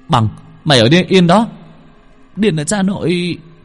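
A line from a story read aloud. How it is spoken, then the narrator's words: Exclaiming. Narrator (Vietnamese): Hồng kêu lên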